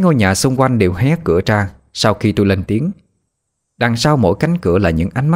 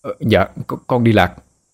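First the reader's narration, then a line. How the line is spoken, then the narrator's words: Stammering. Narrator (Vietnamese): Tôi lắp bắp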